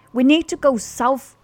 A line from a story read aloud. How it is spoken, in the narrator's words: shouted over the noise of the wind